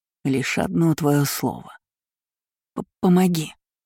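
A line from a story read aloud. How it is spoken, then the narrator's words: Quick shivering mutter. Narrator (Russian): незамедлительно пробормотала Севара, борясь со знобом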